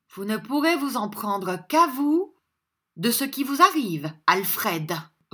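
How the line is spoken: Softened reproach. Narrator (French): reprit Madame Mantaligne d'un ton de reproche encore, mais d'un ton de reproche adouci

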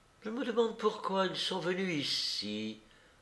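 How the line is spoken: Dreamy. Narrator (French): dit-elle d'un ton rêveur

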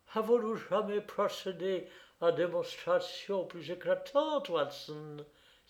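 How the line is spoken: Exclaiming. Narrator (French): s'écria-t-il

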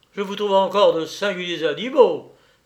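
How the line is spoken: Exclaiming. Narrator (French): s'écria

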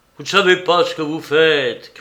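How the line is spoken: Shouted. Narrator (French): criait-il

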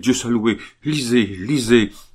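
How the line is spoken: Exclaimed. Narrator (French): s'écria-t-il

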